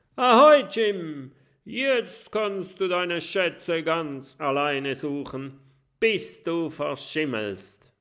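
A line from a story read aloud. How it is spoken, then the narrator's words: Calling out. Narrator (German): ruft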